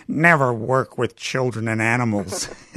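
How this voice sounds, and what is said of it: Imitates another person's voice. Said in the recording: “I'll do a W.C. Fields impersonation”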